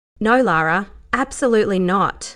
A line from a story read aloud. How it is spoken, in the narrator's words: she said firmly